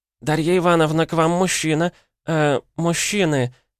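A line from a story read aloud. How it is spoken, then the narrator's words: Uncertain. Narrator (Russian): добавила она неуверенно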